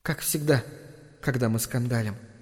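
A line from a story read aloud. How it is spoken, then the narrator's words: Sad inner thought. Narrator (Russian): печально подумала Венди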